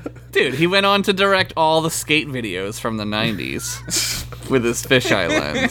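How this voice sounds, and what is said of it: Usual voice. Nothing is said of it.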